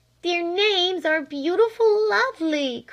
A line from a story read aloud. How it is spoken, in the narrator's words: cried Flame